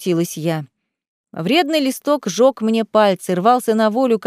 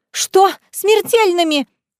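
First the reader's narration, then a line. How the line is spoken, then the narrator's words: Desperate scream. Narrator (Russian): в отчаянии закричала я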